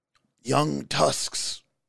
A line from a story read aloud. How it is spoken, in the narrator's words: the dying man whispers, his voice beginning to waver